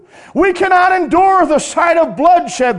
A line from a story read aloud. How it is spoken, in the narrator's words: they exclaimed